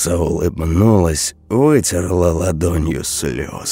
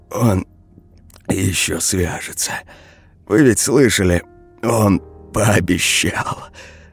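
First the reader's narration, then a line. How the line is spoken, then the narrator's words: Hoarse voice. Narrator (Russian): Я взял себя в руки и сказал осипшим голосом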